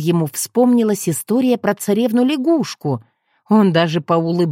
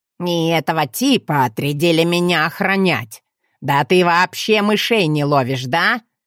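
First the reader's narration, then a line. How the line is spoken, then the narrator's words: Male voice. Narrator (Russian): говорила лягушка, но мужским голосом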